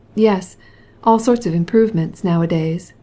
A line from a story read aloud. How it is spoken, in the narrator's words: said Stepan Arkadyevitch, with a beatific yawn